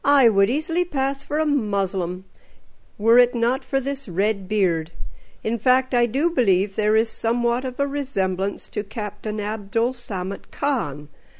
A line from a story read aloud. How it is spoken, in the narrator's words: burst out laughing